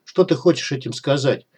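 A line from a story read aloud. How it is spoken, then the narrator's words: Gloomy question. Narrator (Russian): мрачно поинтересовался снайпер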